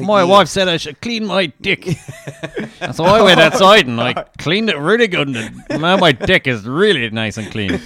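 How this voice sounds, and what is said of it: Put-on Australian accent. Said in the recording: “Uncanny Australian accent ... Yeah, that was good”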